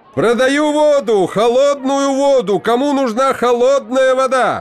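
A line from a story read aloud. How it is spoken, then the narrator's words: Shouting street vendor. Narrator (Russian): Машкоп кричал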